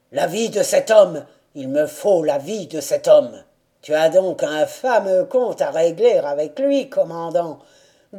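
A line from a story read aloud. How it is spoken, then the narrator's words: Drunken voice. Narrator (French): demanda un lieutenant d'une voix avinée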